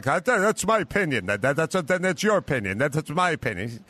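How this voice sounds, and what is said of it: Imitates another person's voice. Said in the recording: “that's a pretty good imitation.”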